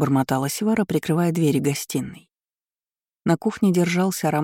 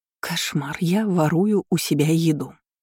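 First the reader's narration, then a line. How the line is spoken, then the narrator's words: Sighed. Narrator (Russian): вздохнула Севара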